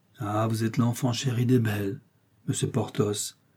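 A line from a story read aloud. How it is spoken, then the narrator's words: Sighing. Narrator (French): reprit en soupirant la procureuse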